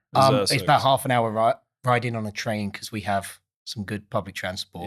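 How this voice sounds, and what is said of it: Essex English accent. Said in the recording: “So my accent in particular, so I'm not from London. I'm from a place called Essex ... it was a really sexy accent, the Essex accent”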